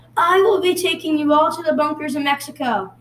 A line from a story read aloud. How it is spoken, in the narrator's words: shouted